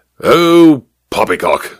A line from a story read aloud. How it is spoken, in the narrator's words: snorted the major